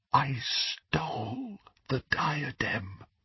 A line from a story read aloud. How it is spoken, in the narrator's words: repeated Helena Ravenclaw in a whisper